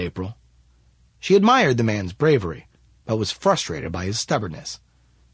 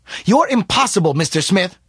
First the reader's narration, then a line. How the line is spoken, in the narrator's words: shouted April